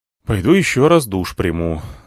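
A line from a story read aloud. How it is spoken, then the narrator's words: Sighed. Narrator (Russian): вздохнул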